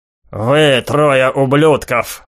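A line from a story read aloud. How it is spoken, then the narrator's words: Growling. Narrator (Russian): прорычал Шин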